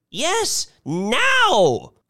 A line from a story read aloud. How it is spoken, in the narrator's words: cried Mrs